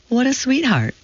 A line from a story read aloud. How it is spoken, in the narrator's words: cooed a woman